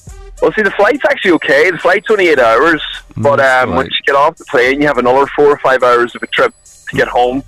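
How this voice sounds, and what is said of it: Slight Irish accent. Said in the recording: “I'm from Donegal, which is like northwest of Ireland ... You can hear the slight accent there.”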